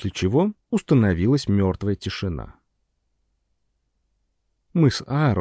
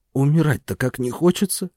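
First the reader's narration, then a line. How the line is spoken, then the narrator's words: Wheeze. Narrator (Russian): просипел Аарон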